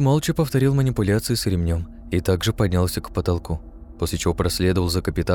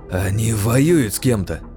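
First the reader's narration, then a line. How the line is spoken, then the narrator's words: Surprised exclamation. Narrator (Russian): с удивлением воскликнул Нейран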